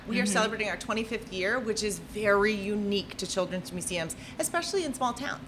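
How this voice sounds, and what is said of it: Minnesota accent. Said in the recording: “I moved here from Minnesota ... that is just an awesome accent.”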